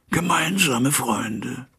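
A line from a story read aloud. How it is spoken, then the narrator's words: Hoarse echo. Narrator (German): echote Hyde etwas heiser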